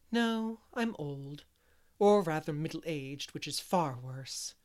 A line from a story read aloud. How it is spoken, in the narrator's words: sighed Miss Lavender